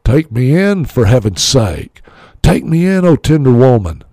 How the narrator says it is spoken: sighed the snake

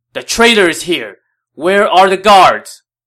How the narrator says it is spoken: Wang Yun now shouted

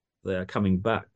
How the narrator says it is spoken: Stoichev said quietly

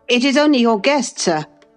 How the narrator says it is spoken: I called out, desirous to spare him the humiliation of exposing his cowardice further

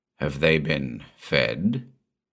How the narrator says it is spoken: he asked, his voice a harsh monotone

